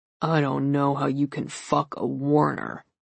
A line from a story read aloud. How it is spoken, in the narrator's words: snarled Kirk